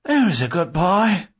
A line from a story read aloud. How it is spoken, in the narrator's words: the blonde human grunted